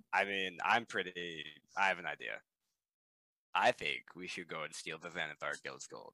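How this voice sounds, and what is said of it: Speaking in a character voice. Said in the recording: “Love that in character voice. Love that in character voice.”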